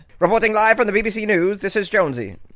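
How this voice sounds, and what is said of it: American doing BBC newsreader voice. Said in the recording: “I always thought I could be a BBC News anchor. That's that's my BBC News voice, and I think it's quite good for an American boy.”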